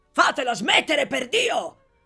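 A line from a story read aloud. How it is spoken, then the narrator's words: Exasperated shout. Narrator (Italian): gridò esasperato l'onorevole Bottecchiari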